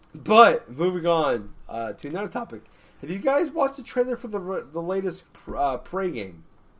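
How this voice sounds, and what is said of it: Congested voice from a cold. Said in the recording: “I'm dealing with a bit of a cold... My voice is a little weird.”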